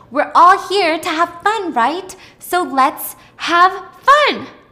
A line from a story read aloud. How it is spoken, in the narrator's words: shouted